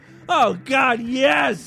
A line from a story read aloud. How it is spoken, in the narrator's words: he groaned loudly